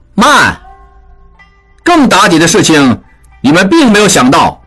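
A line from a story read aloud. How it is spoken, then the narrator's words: Loud. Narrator (Chinese): 应英大声说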